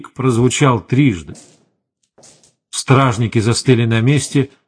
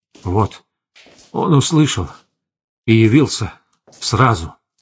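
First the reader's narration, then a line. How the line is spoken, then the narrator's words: Breathed out. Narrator (Russian): выдохнул Эверард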